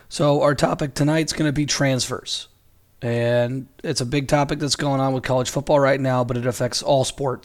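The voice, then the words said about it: Hoarse, strained voice. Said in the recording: “you have totally destroyed your voice yelling on every single possession ... my voice sounds a little funny, because my throat is absolutely killing me ... doing permanent damage to my voice”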